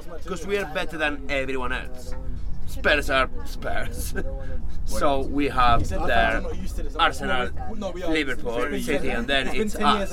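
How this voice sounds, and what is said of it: Noticeable accent. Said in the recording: “I could listen to your accent all night.”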